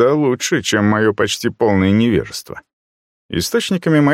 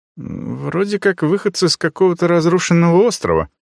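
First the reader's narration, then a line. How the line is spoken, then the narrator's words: Uncertain female reply. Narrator (Russian): отозвалась она неуверенно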